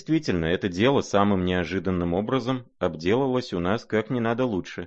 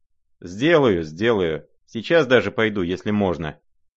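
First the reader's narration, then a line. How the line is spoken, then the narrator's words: Hasty. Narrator (Russian): прибавил он поспешно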